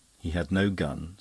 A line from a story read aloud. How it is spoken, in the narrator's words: said the other gravely